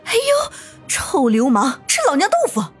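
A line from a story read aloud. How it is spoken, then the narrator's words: Loud angry scolding. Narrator (Chinese): 那个女人哎呦一声，大声骂道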